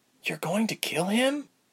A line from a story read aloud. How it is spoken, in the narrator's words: Ilse whispered